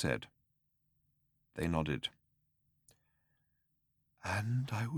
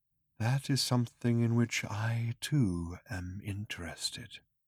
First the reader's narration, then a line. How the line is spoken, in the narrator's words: breathed Hakdar